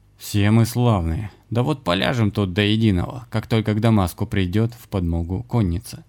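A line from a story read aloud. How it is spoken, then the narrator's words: Said grimly. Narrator (Russian): мрачно проговорил Максимилиан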